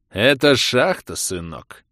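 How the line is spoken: Sarcastic. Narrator (Russian): Язвительно улыбаясь, проговорил он

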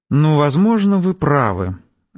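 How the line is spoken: Sighing. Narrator (Russian): Арина вздохнула

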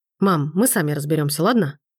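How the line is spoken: Curt cutting retort. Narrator (Russian): отрезает Макс

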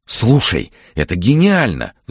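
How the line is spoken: Excited speech. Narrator (Russian): взволнованно заговорил Андрей

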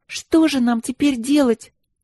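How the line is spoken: Sobbing. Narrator (Russian): всхлипнула Каролинка

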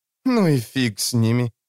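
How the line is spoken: Snort. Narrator (Russian): фыркнула Катрия

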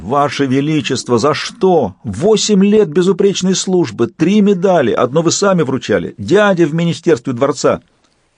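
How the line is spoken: Anguished theatrical exclamation. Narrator (Russian): с цыганским надрывом в голосе воскликнул

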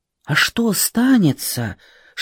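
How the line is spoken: Old women whispering. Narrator (Russian): шептали старухи

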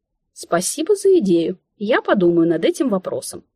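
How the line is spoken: Cheeky, spiteful reply. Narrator (Russian): сугубо из проснувшейся от голода вредности ответила я

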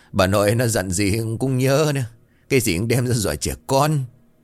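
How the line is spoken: Laughing loudly. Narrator (Vietnamese): Ông Lân cười lớn

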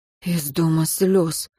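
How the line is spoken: Breathy exhale. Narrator (Russian): выдохнул Мартин

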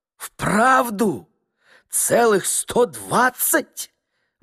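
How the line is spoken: Astonished exclamation. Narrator (Russian): воскликнул Чичиков и даже разинул несколько рот от изумления

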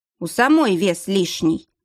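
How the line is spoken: Offended growl. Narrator (Russian): обиженно рыкнула Рози

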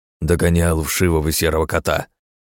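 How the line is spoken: Growled. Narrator (Russian): прорычал он

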